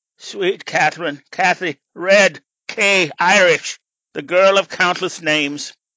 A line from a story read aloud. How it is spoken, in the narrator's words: he sighed